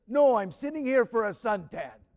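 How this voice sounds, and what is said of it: New York accent impression of Father Hopko. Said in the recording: “in kind of that kind of New York accent he had ... That sound like Father Hopko?”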